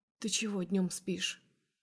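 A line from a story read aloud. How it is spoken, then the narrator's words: Smiling whispered question. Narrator (Russian): улыбаясь, спрашивает шепотом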